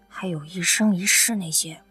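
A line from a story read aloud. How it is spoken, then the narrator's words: Quiet muttering. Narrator (Chinese): 刘亚楠小声嘀咕着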